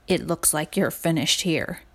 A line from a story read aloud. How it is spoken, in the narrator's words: said softly